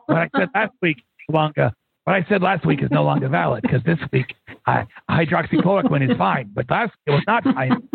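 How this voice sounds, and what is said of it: Imitates another person's voice. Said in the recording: “I'm waiting for you to do the impersonation.”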